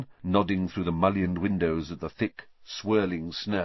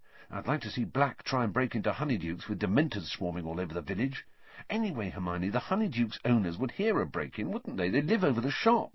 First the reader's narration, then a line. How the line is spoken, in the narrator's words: said Ron, quietly